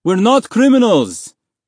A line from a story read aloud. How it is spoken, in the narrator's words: one of the other men in the cell yelled at him